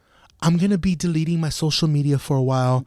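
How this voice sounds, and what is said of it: Mock girly voice. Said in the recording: “Why'd you do a girl voice? ... Because it's the girls that fucking do it.”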